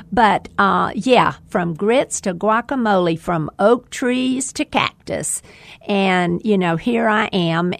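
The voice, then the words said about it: Southern American accent. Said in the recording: “I just slur the English language with a southern accent.”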